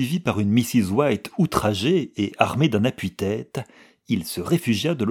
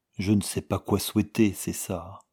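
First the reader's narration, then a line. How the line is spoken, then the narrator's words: Soft. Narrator (French): dit-il doucement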